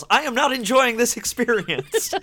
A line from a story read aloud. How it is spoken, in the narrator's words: she yells